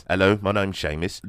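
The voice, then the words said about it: Put-on British accent. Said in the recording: “That's my British accent.”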